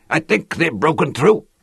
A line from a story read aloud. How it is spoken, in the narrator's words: From some distant part of the field came an animal roar of triumph, and Lannan caught Hui's shoulder and shouted into his ear